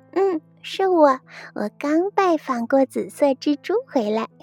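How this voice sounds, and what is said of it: Quiet, hushed reply. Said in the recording (Chinese): “婷卡小声的回答，她强忍住没有。呵呵的笑出声。”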